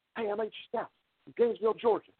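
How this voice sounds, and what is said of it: Raspy imitation of another person's voice. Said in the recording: “my raspiness to my voice is kind of screwing up my accent”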